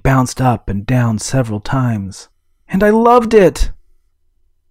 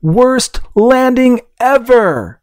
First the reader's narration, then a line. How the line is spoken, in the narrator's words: She cried out